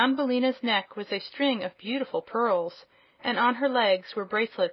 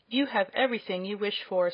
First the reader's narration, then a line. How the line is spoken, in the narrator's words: said the princess